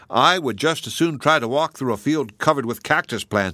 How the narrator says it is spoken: he said

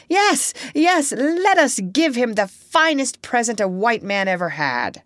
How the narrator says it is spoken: they all cried out, making a great noise

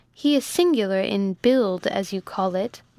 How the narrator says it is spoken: returned Rose, laughing

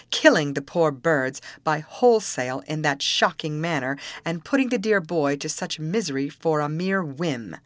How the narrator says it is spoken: replied she, with a short, bitter laugh

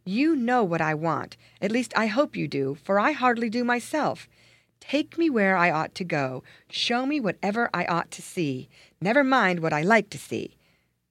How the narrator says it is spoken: he cried in much perplexity

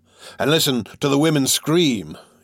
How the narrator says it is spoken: he said grimly, almost bitterly, as though he had been through the experience before

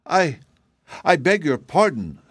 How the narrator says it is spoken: stammered Betsy, blushing and confused

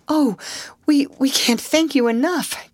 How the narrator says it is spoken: gasped Alice

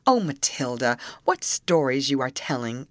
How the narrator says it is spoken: exclaimed her sister

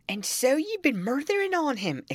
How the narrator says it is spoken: exclaimed, lifting his hands and eyes in horror

